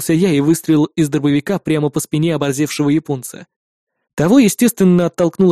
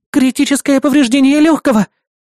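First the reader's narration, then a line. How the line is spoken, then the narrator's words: Electronic voice exclaiming. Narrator (Russian): воскликнула электронная помощница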